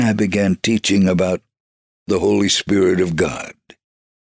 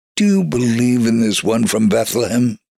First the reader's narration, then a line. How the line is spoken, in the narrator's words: asked